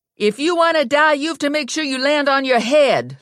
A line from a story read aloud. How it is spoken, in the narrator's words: Lula yelled up to Ginny